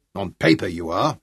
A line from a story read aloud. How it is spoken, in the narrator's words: Sean grunted